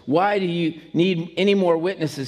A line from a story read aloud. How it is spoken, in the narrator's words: he asked